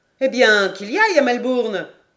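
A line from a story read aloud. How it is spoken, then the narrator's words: Exclaiming. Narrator (French): s'écria Paganel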